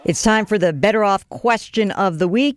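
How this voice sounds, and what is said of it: New York accent. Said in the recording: “I finally have a New Yorker on the phone, so my accent sounds exactly the same as yours.”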